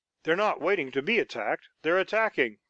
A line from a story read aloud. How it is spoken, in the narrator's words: cried Harry